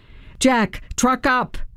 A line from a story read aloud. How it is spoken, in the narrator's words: I yelled as I panted behind him